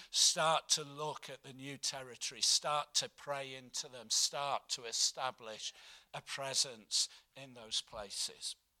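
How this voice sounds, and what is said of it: Husky, hoarse voice. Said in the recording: “my voice is going very husky at this moment”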